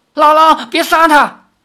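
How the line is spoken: Shout. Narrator (Chinese): 赵灵儿叫道

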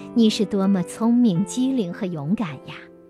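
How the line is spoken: Smiling. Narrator (Chinese): 福克老师微笑着说

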